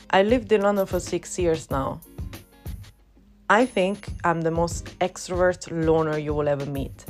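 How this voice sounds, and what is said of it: Italian accent in English. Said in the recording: “I'm originally from Rome, which is the reason why you can hear an accent and sometimes a little bit of a struggle”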